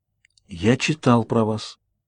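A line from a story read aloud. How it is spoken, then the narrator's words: Weak, quiet near-whisper. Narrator (Russian): говорит он слабым, тихим голосом, почти что шепотом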